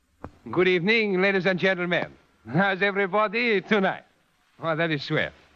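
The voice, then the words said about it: French-accented imitation of a performer. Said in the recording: “my impersonation of that great Frenchman”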